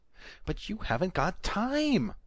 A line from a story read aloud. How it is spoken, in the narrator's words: the lawyer wailed